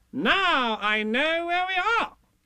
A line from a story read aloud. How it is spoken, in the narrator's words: Rabbit said triumphantly